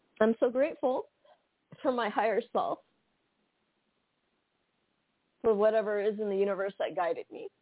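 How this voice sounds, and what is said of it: Emotional, choked-up voice. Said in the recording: “I'm about to get emotional”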